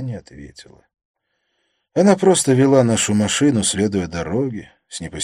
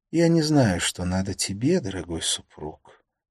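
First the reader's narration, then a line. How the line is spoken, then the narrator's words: Quiet. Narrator (Russian): сказала она тихо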